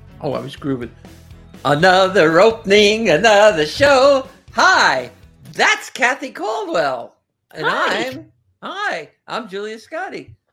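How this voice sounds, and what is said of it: Strong New Jersey accent. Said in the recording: “a killer Jersey accent”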